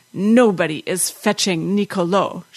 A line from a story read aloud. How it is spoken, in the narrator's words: she said, her voice husky with rage